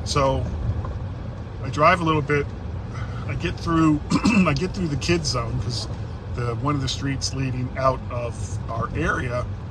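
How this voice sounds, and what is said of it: Voice in poor shape today. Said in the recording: “my voice is terrible today”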